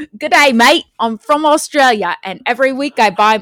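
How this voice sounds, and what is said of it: Put-on Australian accent. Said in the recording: “he's from Australia. So you should be doing ... accent. No, you do the accent.”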